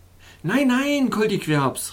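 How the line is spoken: Exclaimed. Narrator (German): rief ich aus

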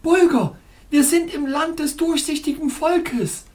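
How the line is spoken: Joyful exclamation. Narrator (German): ich rief freudig aus

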